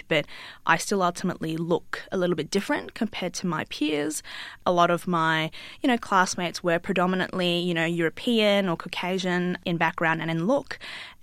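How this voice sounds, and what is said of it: Australian accent. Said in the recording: “when I'm here in Australia, I sound like this and I've been able to cultivate my, what I would think, an Australian accent”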